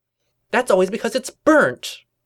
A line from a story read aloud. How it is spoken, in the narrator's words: Twilight exclaimed in annoyance